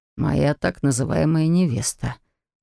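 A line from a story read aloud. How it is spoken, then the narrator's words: Grumbled. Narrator (Russian): буркнул граф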